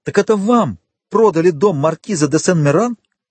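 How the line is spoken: Exclamation. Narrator (Russian): воскликнул Вильфор

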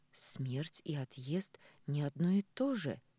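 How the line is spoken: Quiet remark. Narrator (Russian): тихо замечаю я

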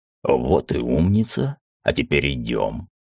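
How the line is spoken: Almost tender. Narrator (Russian): почти ласково сказал Алкид

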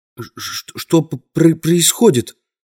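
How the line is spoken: Stammering mutter. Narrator (Russian): запинаясь, пробормотал он

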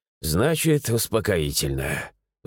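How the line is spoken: Sighing. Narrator (Russian): вздохнул

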